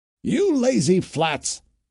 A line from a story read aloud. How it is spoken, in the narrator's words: would holler on their hides